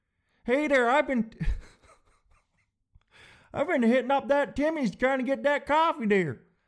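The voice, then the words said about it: Put-on Southern US accent. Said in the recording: “This sounds very Southern to me.”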